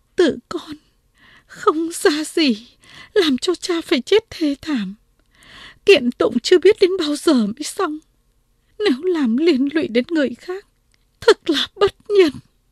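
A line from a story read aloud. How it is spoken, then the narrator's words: Girl sniffling. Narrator (Vietnamese): Cô gái sụt sùi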